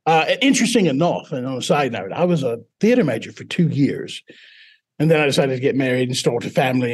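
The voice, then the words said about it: British-sounding accent. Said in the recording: “a British accent ... And now I'm stuck with it.”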